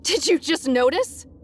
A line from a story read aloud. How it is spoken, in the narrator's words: she snapped hysterically